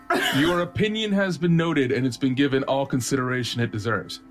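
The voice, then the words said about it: Corporate-speak character voice. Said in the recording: “it's not hard to do a corpo imitation. ... corpo speak is so low class”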